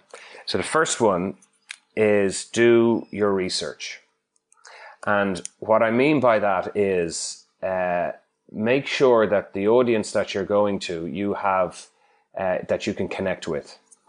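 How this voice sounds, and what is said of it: Irish accent. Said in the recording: “I'm Irish from my accent”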